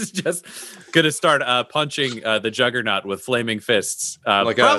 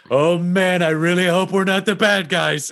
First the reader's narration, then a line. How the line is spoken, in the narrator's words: he's yelling like